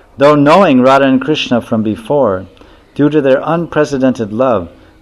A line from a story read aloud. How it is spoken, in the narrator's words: the peacocks madly cried out